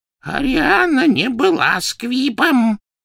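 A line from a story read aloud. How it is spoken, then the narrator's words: Hoarse wheeze. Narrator (Russian): прохрипел Дож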